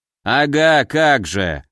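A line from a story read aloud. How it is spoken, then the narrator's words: Scoffing phantom. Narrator (Russian): хмыкнул фантом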